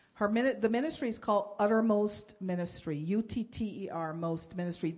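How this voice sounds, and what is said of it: Speaker's own foreign accent. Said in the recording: “That is the most difficult word for me to say because with my accent”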